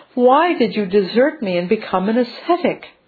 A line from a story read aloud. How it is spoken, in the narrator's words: she cried